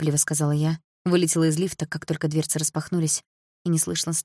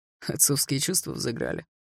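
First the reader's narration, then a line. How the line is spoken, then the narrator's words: Smirking snort. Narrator (Russian): хмыкнул первый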